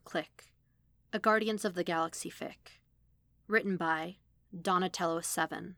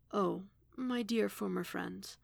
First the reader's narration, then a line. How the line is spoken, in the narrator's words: Tivian said quietly